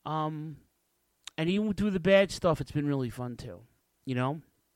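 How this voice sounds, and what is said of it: Emotional, choked-up voice. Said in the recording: “I got a little emotional”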